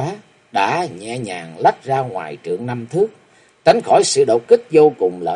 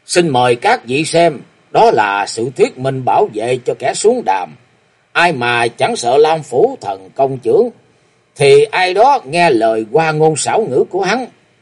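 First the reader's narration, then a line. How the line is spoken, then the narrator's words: Arrogant loud call. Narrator (Vietnamese): Độc tôn chủ nhân trụ văn hóa với giọng ngông cuồng gọi to lên nói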